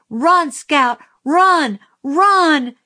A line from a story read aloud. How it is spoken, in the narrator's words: Jim screamed